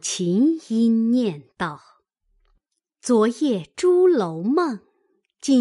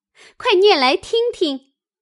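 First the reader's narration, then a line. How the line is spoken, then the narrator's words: Laughing. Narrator (Chinese): 湘云笑道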